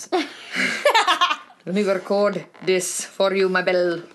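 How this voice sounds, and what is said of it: Attempted Scottish accent. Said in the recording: “I can't do a Scottish accent”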